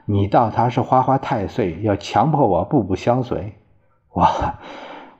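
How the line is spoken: Firm and decisive. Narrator (Chinese): 谭继儿却一改往日的娇羞温柔，果断果敢地说

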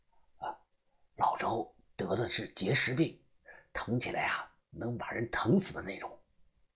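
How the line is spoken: Quiet, hushed. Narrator (Chinese): 对方小声的告诉我

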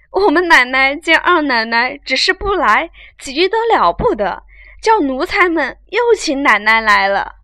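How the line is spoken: Flustered old women, laughing. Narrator (Chinese): 两三个婆子慌慌张张的，笑说道

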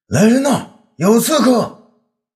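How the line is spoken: Alarmed urgent shout. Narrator (Chinese): 魏抗大惊，急忙叫道

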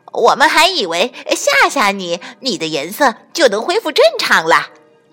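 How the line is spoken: Loud shout. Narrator (Chinese): 猴子和校维猛冲变色龙大喊

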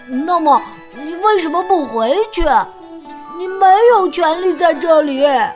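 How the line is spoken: Shouted. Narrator (Chinese): 小猪叫道

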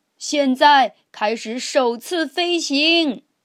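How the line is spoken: Loud. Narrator (Chinese): 托比熊大声地说

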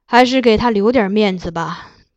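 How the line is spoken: Sighing. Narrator (Chinese): 金上最后叹道

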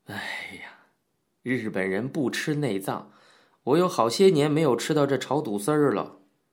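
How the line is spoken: Laughing sigh. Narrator (Chinese): 林茂雄笑叹道

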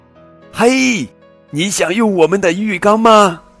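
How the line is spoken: Shouting downward. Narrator (Chinese): 马努冲着下面大喊

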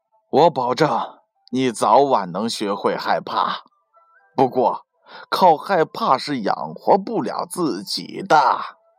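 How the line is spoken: Father, sighing. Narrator (Chinese): 父亲叹了一口气，对小儿子回答说

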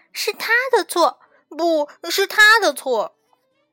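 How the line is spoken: Children loudly yelling. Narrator (Chinese): 小熊哥哥和小熊妹妹 大声的嚷嚷

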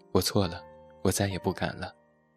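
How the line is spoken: Muttering. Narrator (Chinese): 嘴里嘀咕着

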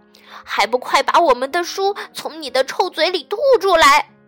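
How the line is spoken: Angry shout. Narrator (Chinese): 管理员愤怒地大喊

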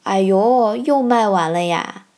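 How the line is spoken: Loud complaint. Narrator (Chinese): 后我一步的大姐大声抱怨道

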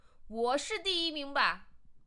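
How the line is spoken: Confident roar. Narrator (Chinese): 老虎很自信的吼道

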